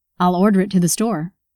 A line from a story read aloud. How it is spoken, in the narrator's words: Michael asked